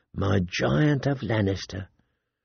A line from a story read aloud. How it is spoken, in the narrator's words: purred